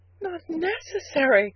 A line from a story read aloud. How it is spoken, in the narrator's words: cried the girl, her big eyes shining